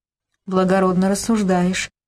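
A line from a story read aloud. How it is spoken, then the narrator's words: Sighing again. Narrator (Russian): вновь вздохнул Сергей Андреевич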